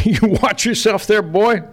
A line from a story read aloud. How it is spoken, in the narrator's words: laughed Posey